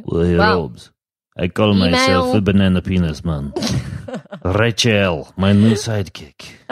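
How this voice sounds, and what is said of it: Put-on Russian accent. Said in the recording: “Oh, the accent's back. I love it. ... The accent is back. ... Now I'm an evil Russian missile designer”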